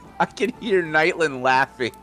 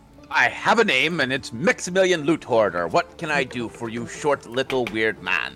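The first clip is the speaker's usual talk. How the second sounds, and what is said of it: Put-on accent for a character. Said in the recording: “That is too difficult to say in this accent.”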